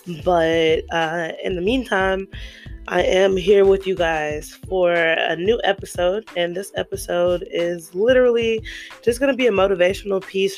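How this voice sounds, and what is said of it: Strained voice from yelling. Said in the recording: “excuse my voice, I've been yelling a lot”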